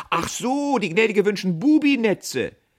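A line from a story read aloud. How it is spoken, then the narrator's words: Called out with foreboding. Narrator (German): rief er ahnungsvoll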